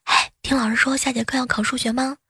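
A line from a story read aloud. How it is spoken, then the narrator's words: Sudden whispered question. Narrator (Chinese): 同桌突然小声的问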